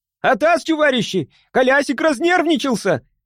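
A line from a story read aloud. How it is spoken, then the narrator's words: Shouting. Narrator (Russian): закричал Пакетик-брикетик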